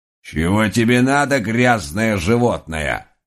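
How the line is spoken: Old woman's rude bark. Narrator (Russian): рявкнула моя бабушка, отродясь, не имевшая никаких понятий о культурном воспитании

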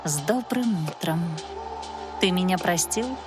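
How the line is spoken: Soft-spoken half-elf. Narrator (Russian): полуэльфийка тихо проговорила

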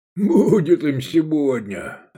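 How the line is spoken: Laughing. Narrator (Russian): рассмеялся Гаар

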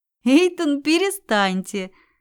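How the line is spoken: Light involuntary laugh. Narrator (Russian): против воли легко рассмеялась

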